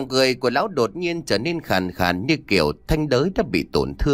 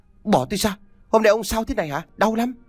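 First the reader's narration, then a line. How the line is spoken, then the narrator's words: Terrified loud scream. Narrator (Vietnamese): Mồ Xuyến kinh hoàng thét lớn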